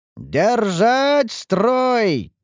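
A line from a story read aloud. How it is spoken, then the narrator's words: Shouting commander. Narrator (Russian): кричал командир защитников Ингарда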